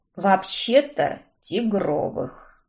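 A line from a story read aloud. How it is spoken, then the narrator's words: Sighing. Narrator (Russian): Вздохнул Уильям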